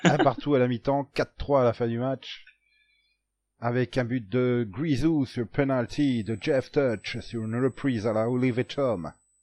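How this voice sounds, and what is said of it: Put-on English or American accent. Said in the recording (French): “pourquoi cet accent anglais d'un coup, là, ou américain?”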